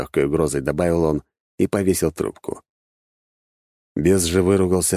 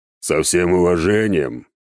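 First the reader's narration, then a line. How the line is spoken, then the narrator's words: Deep bass voice. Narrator (Russian): пробасил бес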